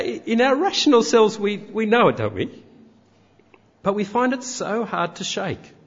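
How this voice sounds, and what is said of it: Usual voice. Nothing is said of it.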